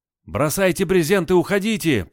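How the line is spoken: Panicked soldier's shout. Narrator (Russian): панически закричал солдат

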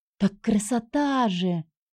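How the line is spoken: Sighing older girl. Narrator (Russian): вздохнула другая, повыше и постарше

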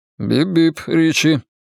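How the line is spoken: Dry, smiling. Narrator (Russian): сухо улыбнулся

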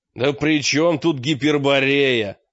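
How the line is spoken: Snapping back. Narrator (Russian): огрызнулся мрак

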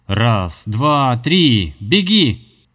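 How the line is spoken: Shouted. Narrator (Russian): прокричал он

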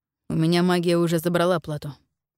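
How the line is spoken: Calm. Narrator (Russian): спокойно ответил Дитер

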